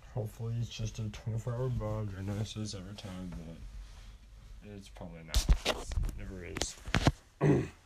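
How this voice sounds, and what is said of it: Hoarse, strained voice. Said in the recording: “As you can tell by my voice, throat's a little messed up ... my voice is pretty much trashed”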